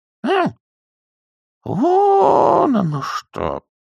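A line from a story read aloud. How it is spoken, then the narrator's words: Muffled reply. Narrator (Russian): глухо ответила нянюшка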